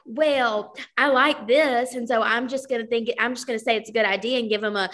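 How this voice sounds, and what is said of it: Put-on Southern accent. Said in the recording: “they have a Southern accent ... I always like put on a voice whenever I'm like upset with somebody”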